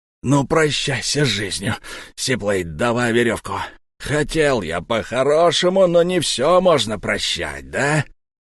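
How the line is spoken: Hissing wolf. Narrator (Russian): прошипел волк

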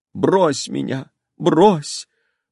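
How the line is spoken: Sobbing speech. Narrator (Russian): выговаривала она между рыданиями

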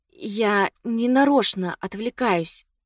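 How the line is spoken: Quiet voice. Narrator (Russian): сказала я тихим голосом

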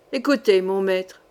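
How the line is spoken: Cold flat voice. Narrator (French): dit froidement Passavant

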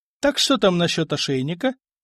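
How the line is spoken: Merry laughter. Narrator (Russian): весело захохотал Франк

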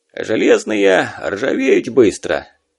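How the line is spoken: Bitter snort. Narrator (Russian): желчно хмыкнул Гнат

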